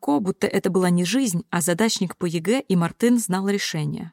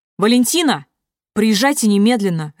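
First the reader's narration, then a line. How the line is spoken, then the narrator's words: Barked. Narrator (Russian): рявкнул Руслан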